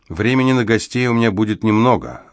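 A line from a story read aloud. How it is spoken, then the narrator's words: Snorting. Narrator (Russian): она фыркнула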